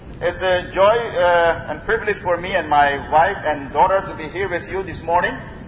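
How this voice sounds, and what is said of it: Surinamese-accented English. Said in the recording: “I come from South America, Suriname ... My accent is still different than yours.”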